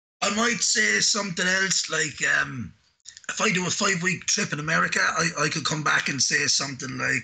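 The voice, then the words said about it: Strong Irish accent. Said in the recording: “your accent is strong and you have to switch it up a bit to be understood ... now that you're back in Ireland”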